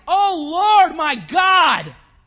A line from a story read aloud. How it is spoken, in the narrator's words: He cried